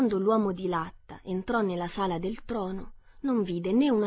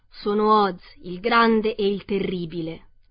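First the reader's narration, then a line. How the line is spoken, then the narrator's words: Roaring beast voice. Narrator (Italian): parlò la bestia, con una voce che era un unico grande ruggito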